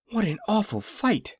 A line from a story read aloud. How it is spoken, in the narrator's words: said Dorothy, catching her breath in little gasps